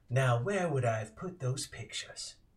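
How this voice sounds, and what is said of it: Thick accent, old man's voice. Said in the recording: “you hear your voice with a thick accent”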